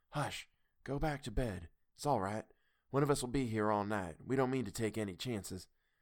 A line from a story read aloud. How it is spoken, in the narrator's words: he whispered to me